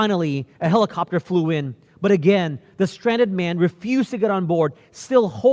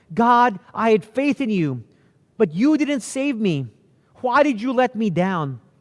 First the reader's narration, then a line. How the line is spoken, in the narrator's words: the man begged to know